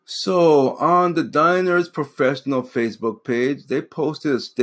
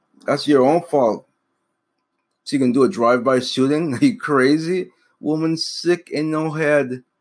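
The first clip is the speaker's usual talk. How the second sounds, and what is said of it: Put-on Jamaican accent. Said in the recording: “I put on my little Jamaican voice. I'm not Jamaican, but I had to do a little Jamaican voice.”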